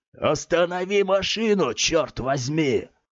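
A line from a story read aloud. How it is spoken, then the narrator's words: Stern man barking. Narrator (Russian): Выражение лица мужчины стало суровым, и он рявкнул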